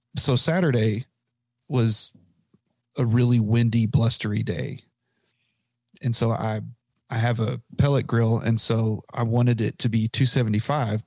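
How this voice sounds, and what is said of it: Failing, strained voice. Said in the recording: “my voice just decided to die on us this last two minutes”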